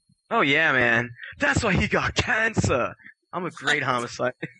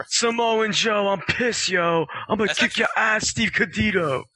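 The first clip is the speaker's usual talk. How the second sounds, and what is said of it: Imitates another person's voice. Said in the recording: “That's actually a really good Homicide impression.”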